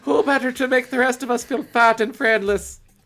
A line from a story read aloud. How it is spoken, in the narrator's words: Gaia laughed